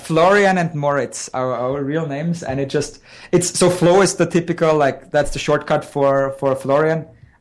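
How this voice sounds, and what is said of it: Austrian accent in English. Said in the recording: “it's a good accent. I like you guys have ... Austrian accents”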